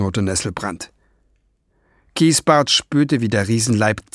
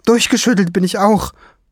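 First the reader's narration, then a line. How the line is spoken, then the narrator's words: Calling upward. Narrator (German): rief nach oben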